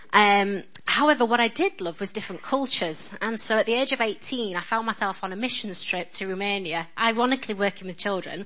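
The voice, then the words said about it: Strong northern English accent. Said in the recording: “Excuse my accent, by the way. I know I'm ridiculously northern. In America this week, they thought I was Scottish because I am so northern”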